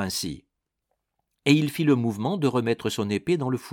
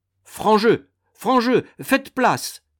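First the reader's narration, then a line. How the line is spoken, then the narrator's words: Many guests shouting. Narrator (French): s'écrièrent presque tous les convives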